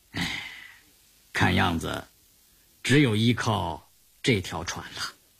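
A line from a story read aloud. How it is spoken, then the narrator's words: Soft sigh. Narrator (Chinese): 刘伯承轻轻地叹了口气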